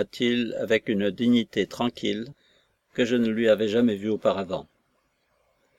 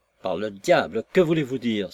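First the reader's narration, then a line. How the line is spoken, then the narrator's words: Exclaiming. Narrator (French): s'écria Sir Percival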